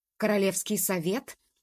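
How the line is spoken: Indignant upset roar. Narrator (Russian): возмущенно взревел Заразиха, огорченный куда сильнее их двоих вместе взятых

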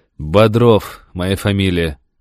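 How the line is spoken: Tired reply. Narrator (Russian): ответил я устало

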